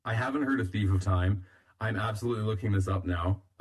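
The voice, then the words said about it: Slightly hoarse, fading voice. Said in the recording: “I'm losing my voice a little bit”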